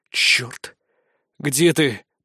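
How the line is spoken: Hoarse rasp. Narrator (Russian): прохрипел я

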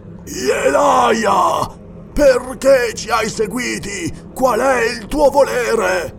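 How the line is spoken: Frightened yelling. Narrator (Italian): urlò Gorulga grigio in volto

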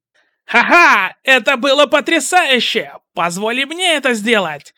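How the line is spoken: Shouting. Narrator (Russian): закричал Эйджер

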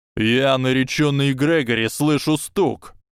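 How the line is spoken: Roared. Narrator (Russian): проревел мистер Гойл

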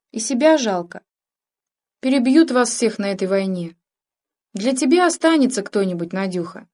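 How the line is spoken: Plain. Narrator (Russian): сказал Егорыч

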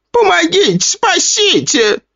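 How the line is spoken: Shrieking. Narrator (Russian): завизжала

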